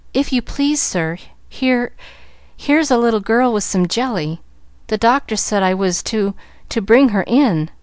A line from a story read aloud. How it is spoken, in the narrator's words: the maid was saying in a frightened voice